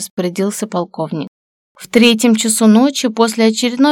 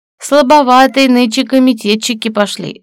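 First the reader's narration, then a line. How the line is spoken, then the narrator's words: Laughing. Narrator (Russian): засмеялся полковник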